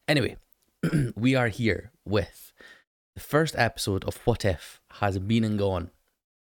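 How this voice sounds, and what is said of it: Croaky, hoarse deep voice. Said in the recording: “my voice is a little bit croaky ... it's been really hoarse ... Some sort of like Barry White kind of feeling to it.”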